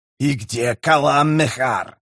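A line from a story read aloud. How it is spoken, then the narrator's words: Hissed. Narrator (Russian): прошипел Камист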